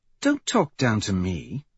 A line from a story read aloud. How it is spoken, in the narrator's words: she says sharply